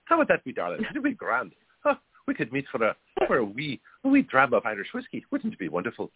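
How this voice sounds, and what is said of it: Put-on Irish accent. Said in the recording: “people with an Irish accent ... We're going to speak in Irish accents”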